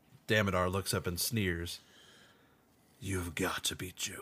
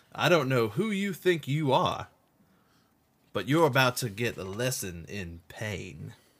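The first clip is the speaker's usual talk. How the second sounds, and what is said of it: Slightly southern character voice. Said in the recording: “It's a little bit southern.”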